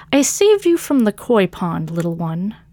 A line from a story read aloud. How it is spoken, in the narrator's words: Catacomb purred